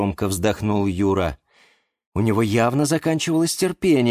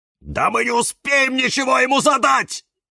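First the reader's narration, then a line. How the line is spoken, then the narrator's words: Harsh bark. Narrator (Russian): рявкнул кактус Кирилл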